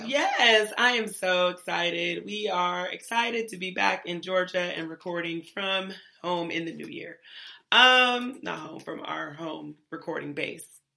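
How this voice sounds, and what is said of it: Hoarse, unusually deep voice. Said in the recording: “my voice is almost gone. It's a little bit deep. ... You went to tenor. ... With bass.”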